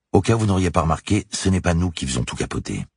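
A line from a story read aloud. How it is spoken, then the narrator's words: Curt dry tone. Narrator (French): son sourire s'est effacé, et elle a rajouté d'un ton sec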